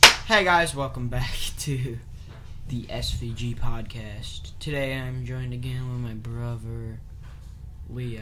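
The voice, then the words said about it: Flat, depressed-sounding low-energy voice. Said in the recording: “you sound so depressed?”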